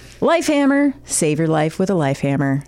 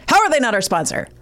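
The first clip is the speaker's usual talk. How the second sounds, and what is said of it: Angry imitation of another person's voice. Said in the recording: “I just sounded like Jimmy. Didn't I? Like that anger at the end... that's my Jimmy Pardo impression”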